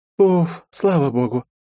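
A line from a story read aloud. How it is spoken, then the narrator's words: Relieved exhale. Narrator (Russian): расслабленно выдохнула Лиза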